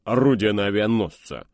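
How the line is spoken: Mocking snort. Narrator (Russian): насмешливо фыркнул Кроу

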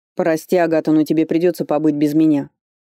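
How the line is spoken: Shouted while moving. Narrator (Russian): на ходу крикнул он

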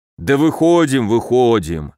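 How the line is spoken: Snorting through laughter. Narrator (Russian): Сквозь смех прохрюкал Камбулат

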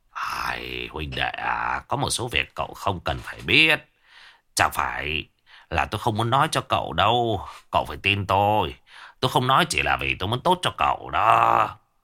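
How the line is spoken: Tipsy mumbling. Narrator (Vietnamese): đã chuẩn bị say, miệng anh ta lẩm bẩm

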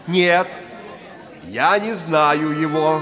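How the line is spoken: Loud. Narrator (Russian): громко говорил Петр

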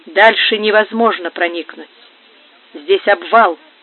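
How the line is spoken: Hollow, sepulchral voice. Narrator (Russian): ответил Антонио глухим, гробовым голосом

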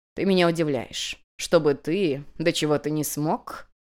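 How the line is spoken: Incredulous snort. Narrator (Russian): недоверчиво хмыкнула хозяйка

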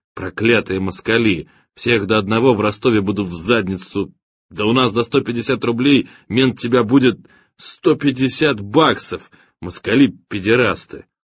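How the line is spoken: Timid repetition. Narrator (Russian): повторял, робко

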